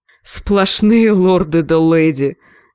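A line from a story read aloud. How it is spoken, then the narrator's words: Groaning from behind. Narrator (Russian): застонал позади Джендри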